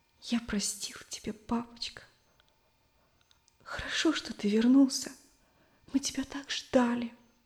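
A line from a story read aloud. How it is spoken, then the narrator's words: Boy's sobbing whisper. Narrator (Russian): Мальчик шептал, всхлипывая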